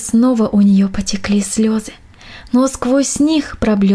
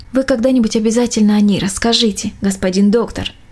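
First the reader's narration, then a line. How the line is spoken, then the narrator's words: Plain. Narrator (Russian): ответила Мельничиха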